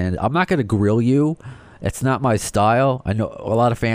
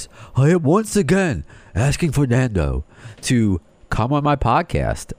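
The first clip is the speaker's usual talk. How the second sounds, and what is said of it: Imitates another person's voice. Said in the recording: “in my Bernie Sanders voice,”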